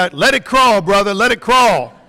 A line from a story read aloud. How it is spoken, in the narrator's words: the people yelled back